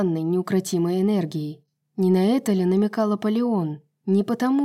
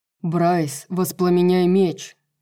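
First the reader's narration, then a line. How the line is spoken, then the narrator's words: Thundering shout. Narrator (Russian): прогремел голос Ханта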